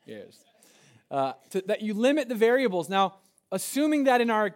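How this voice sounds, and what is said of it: Usual voice. Nothing is said of it.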